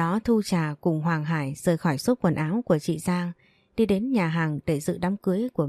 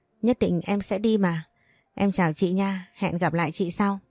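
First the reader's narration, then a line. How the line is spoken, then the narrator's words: Smiling. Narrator (Vietnamese): Thu Trà mỉm cười nói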